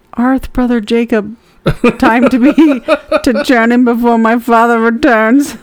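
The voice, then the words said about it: Weird put-on Amish accent. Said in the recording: “I was like trying to do it in like a weird accent. You had that ... Amish accent”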